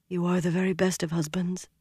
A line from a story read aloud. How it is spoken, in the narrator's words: she murmured